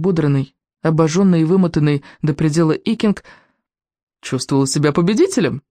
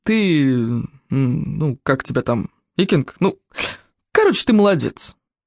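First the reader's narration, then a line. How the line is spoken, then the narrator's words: Gruff mutter. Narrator (Russian): пробурчал Коварняк Гостедав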